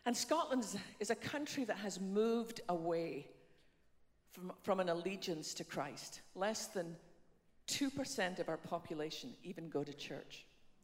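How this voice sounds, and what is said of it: Scottish accent. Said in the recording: “by my funny accent ... I was born on the west coast of Scotland”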